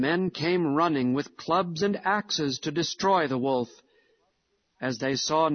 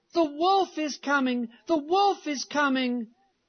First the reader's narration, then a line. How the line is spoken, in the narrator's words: he cried out with all his might